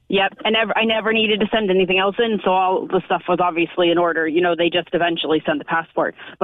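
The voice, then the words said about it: American accent. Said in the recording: “I'm American by the accent.”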